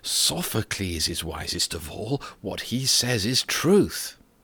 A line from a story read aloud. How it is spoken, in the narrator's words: the people murmured